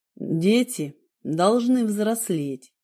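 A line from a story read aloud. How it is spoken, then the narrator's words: Plain. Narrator (Russian): сказал он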